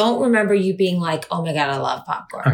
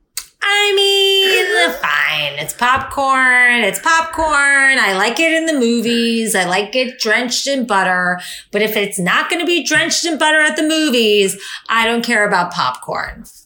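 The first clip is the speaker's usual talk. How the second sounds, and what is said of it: Imitates another person's voice. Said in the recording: “good imitation”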